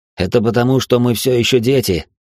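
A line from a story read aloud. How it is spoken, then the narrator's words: Snorting. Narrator (Russian): хмыкнул я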